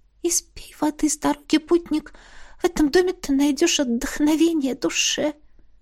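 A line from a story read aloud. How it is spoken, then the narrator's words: Trembling, barely audible. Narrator (Russian): Дрожащим, еле слышным голосом сказала девушка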